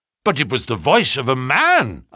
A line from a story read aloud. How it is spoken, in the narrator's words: I cried